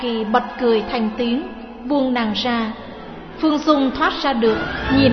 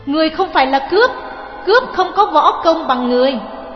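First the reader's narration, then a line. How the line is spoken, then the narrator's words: Shout. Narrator (Vietnamese): Phương Dung quát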